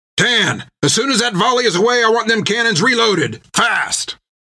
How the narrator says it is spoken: bellowed down into the hatch

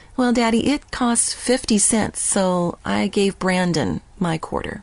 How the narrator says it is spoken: Her big brown eyes were brimming with tears when she answered softly

